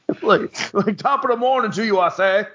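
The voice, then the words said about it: Exaggerated thick British accent. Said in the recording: “he's got the thickest British accent”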